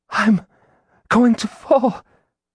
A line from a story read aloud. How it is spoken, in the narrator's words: she gasped